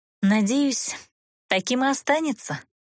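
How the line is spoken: Mysterious sigh. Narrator (Russian): загадочно вздохнула девушка

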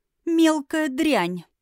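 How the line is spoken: Giggling again. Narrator (Russian): снова хихикнула Эола

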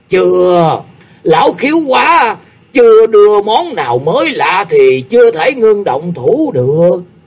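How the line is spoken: Laughing loudly. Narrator (Vietnamese): Công Lưu Dương Tử cười lớn nói

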